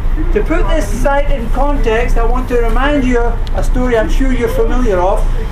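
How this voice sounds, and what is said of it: Scottish accent. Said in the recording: “You may have picked up something from the accent that originally I'm from Scotland”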